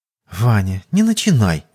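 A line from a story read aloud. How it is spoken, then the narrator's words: Sighed. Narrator (Russian): вздохнула княгиня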